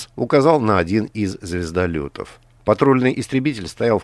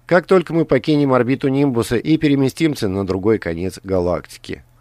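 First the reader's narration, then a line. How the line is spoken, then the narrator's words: Plain. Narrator (Russian): ответил Грант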